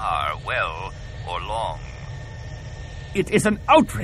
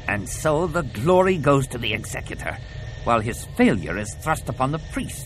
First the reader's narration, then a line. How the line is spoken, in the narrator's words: snarled Kalila